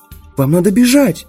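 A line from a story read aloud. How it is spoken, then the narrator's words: Frightened exclamation. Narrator (Russian): воскликнула Шарла, и на ее милом личике отразился испуг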